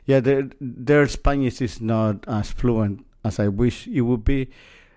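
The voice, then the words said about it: Strong Spanish-speaker's accent in English. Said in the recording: “my English, you know, I have a strong accent”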